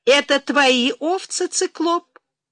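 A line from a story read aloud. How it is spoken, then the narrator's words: Cheerful smiling question. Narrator (Russian): весело спросила она и впервые улыбнулась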